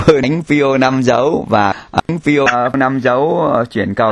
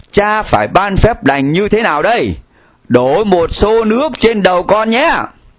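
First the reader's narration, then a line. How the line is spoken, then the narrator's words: Exclaiming. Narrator (Vietnamese): cùng cha Pio phải kêu lên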